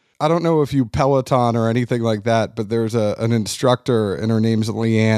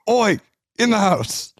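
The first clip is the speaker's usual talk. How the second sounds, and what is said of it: Gruff British character voice. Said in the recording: “I talk to my dogs like I'm Roy Kent”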